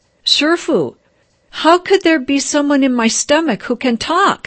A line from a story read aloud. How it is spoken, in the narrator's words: she blurted out